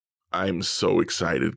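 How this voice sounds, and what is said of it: Sarcastic, mock-excited flat delivery. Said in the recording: “Can't you tell from the excitement in my voice just how excited I am ... I'm so breathless in excitement.”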